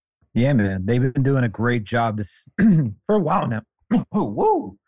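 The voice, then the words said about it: Voice briefly cracks and gives out. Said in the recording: “Losing my voice for a second”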